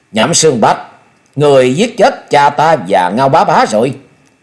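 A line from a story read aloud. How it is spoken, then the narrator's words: Loud shout. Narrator (Vietnamese): Thôi Vân, lớn tiếng quát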